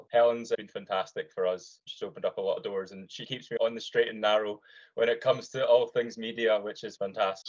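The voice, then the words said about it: Scottish accent. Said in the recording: “most can hear there's a Scottish accent involved here”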